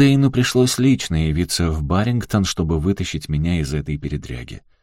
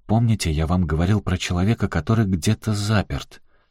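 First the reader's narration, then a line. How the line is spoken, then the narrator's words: Muttered. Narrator (Russian): он пробормотал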